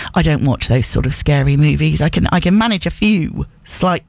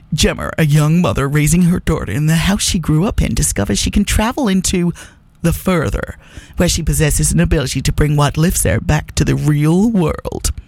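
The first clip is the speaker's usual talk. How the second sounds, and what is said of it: Dramatic movie-trailer narrator voice. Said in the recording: “I'll do my movie voice.”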